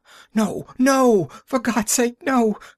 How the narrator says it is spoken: cried the prisoner shrilly

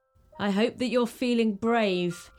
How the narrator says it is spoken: he laughed

